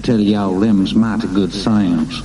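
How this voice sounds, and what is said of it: Exaggerated Texas accent. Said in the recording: “It's a very bad Texas accent”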